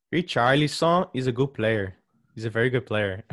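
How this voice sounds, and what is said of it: Slight put-on Brazilian accent. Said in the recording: “I did that to a little Brazilian accent there.”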